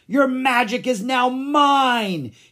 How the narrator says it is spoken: he cried

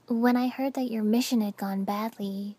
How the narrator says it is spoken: Hinata said softly

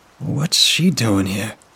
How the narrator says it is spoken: Victor whispered

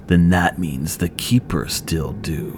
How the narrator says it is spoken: rasped

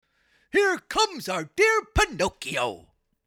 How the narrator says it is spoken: cried the fox

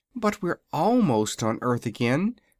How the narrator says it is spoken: cried Dorothy

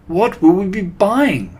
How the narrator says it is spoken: They cried

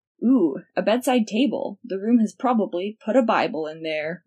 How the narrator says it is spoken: Remus said, chuckling

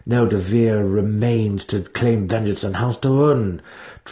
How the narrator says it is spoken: Drizzt growled back, his anger holding off his despair

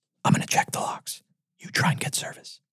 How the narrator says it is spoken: whispered

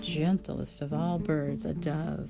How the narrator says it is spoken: sighed the doctor

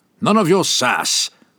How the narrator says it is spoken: the elder snapped

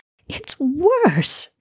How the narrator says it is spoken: she cried

